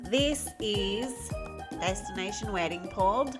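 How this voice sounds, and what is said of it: Poorly done put-on accent. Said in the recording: “I am not doing a very good accent ... Today, we are going to talk to you in regular voices”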